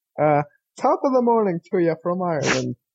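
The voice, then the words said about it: Put-on Irish accent. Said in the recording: “That's my impression.”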